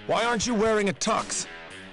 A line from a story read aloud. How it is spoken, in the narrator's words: Madison shouts